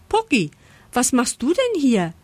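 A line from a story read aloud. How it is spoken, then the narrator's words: Surprised call. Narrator (German): ruft Lisa überrascht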